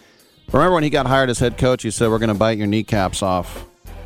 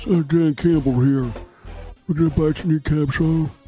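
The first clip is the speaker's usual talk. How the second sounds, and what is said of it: Imitates another person's voice. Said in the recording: “with his voice ... I won't do his voice. Well, I just did a little bit.”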